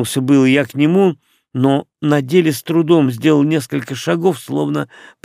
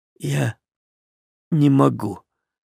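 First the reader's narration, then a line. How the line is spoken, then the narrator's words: Barely audible. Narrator (Russian): еле слышно проговорил Ромашка, посеревшими губами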